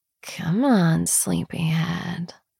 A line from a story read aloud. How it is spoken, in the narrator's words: I murmur